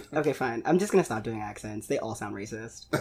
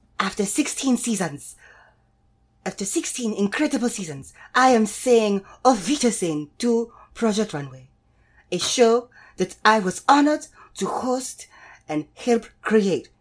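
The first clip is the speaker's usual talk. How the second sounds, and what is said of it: Imitates another person's voice. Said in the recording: “What is this accent? ... That's my Heidi Klum accent. ... That's not what I would peg it for. ... Sounds like the woman I ordered my Chinese food from.”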